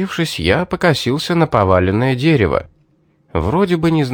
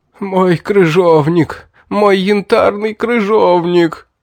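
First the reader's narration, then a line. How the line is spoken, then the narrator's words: Fat man wailing. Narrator (Russian): взвыл толстяк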